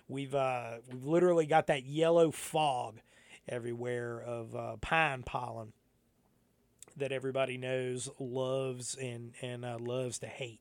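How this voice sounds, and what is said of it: Slightly scratchy voice. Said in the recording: “why my voice is a little scratchy right now”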